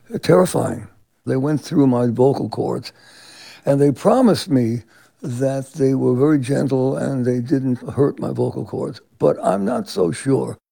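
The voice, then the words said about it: Hoarse voice. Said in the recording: “Manilow is still hoarse”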